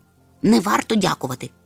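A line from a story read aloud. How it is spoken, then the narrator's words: Grumbling professor. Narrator (Ukrainian): буркнув професор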